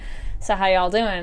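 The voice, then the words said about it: Put-on Southern accent. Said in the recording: “we probably might slip into some Southern accents at some point ... We keep slipping into little Western accents.”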